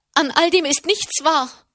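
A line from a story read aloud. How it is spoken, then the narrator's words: Loud calling. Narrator (German): rief sie laut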